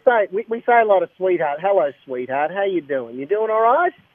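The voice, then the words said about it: Australian accent. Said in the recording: “your accent ... I just love your accent ... we don't want any Aussies”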